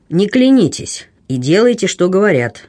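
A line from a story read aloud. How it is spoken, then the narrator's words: Stern command. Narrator (Russian): строго велел флебустьер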